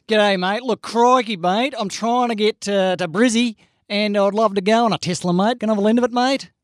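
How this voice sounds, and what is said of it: Put-on Australian accent. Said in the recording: “can you do it in an accent?”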